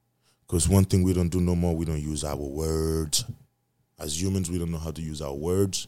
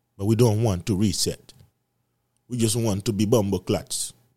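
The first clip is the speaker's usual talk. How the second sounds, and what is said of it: Put-on Jamaican accent. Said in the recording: “I'm going to Jamaican accent.”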